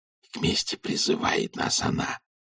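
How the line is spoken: Whispered prompt. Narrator (Russian): шепотом подсказал Том Джон

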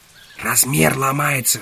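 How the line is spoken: Whisper. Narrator (Russian): шепнуло яйцо Ганзера

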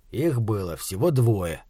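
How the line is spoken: Quiet. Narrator (Russian): тихо сказал Фланаган

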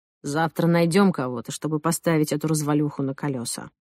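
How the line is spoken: Displeased. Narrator (Russian): Он сказал недовольным голосом

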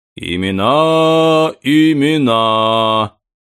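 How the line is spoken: Sing-song old man. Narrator (Russian): нараспев говорил старый продавец

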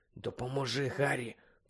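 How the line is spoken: Muttering. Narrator (Ukrainian): пробурмотів він

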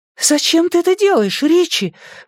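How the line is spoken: High frightened voice. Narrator (Russian): высоким испуганным голосом спросила Беверли

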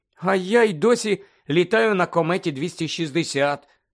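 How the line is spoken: Envious groan. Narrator (Ukrainian): заздрісно простогнала Тонкс

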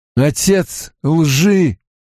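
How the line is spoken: Strained, forced out. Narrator (Russian): выдавил из себя Ранд

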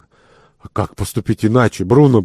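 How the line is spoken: Faint, barely audible mutter. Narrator (Russian): пробормотал Ван Миттен таким слабым голосом, что его едва можно было расслышать

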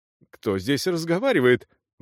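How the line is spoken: Exclaiming in Czech. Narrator (Russian): воскликнул я по-чешски

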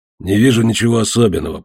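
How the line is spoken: Grumbling. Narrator (Russian): проворчал тот

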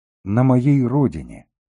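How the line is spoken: Plain. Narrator (Russian): сказала Мангул

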